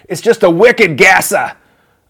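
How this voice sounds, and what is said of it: Put-on Boston accent. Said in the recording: “I feel like I should say that with a Boston accent.”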